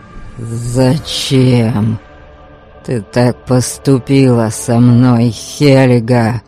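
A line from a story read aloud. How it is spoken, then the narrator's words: Growl. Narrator (Russian): прорычал Гарольд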